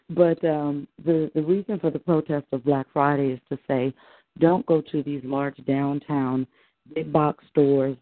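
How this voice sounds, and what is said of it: Hoarse voice. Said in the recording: “I'm a little bit hoarse still from Saturday”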